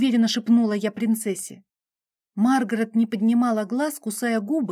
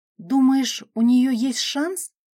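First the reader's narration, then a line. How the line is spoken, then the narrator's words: Uncertain question. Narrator (Russian): неуверенно спросила я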